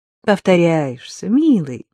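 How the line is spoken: Calm reply. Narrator (Russian): спокойно ответила Рита

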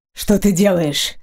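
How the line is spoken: Hoarse, choking cough. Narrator (Russian): хрипло спросил он и закашлялся, едва не подавившись кровью

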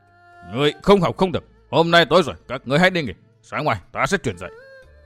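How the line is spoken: Loud irritable snap. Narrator (Vietnamese): Thần Châu Nhất Quân gắt lên ầm ĩ

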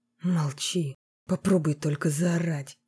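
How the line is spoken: Hissed into ear. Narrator (Russian): прошипел ей в ухо Большаков

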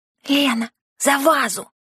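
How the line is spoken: Wheezed hoarsely. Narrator (Russian): прохрипела Лора

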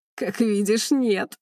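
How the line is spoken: Laughing man. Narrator (Russian): смеялся мужчина

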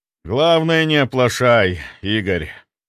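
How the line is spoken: Loud, muffled man. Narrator (Russian): громко произнес мужчина, вслушиваясь в звуки собственного голоса, звучавший особенно глухо в норе

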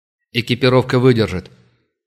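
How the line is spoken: Sharp commander's reply. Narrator (Russian): резко ответил командир наемников

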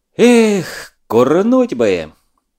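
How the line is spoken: Sighing, spoken aloud. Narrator (Russian): Лёва вздохнул и вслух сказал

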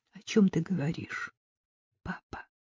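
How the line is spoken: Quiet question. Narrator (Russian): тихо спросила Люси

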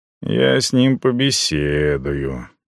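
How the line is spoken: Grim promise. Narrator (Russian): пообещал я мрачно

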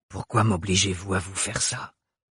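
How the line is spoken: Breathy whisper. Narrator (French): souffla la voix familière

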